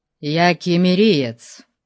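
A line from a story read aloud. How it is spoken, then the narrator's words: Cold young man. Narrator (Russian): холодно ответил юноша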